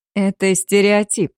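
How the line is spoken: Dry reply. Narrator (Russian): сухо ответил ему Шакаяма

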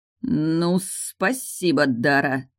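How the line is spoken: Creaky, through gritted teeth. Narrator (Russian): проскрипел сквозь зубы

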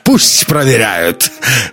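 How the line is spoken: Laughing. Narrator (Russian): засмеялся Казбек

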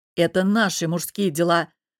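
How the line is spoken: Hesitant then curt, father. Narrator (Russian): помявшись, отрезал отец

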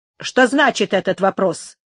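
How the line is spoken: Curt question. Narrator (Russian): спросил отрывисто

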